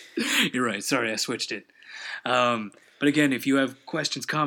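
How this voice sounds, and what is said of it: Usual voice. Nothing is said of it.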